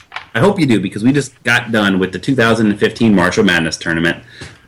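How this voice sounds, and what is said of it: Excited, energetic speaking voice. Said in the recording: “hear the excitement in my voice?”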